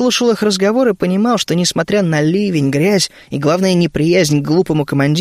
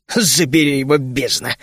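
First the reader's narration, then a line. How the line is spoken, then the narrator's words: Cursing through teeth. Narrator (Russian): сквозь зубы выругался Рен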